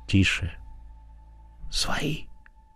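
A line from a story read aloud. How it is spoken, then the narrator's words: Whispered. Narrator (Russian): шепотом сказал Егоров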